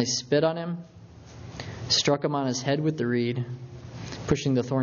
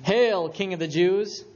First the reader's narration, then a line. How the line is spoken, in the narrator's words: they mocked him, saying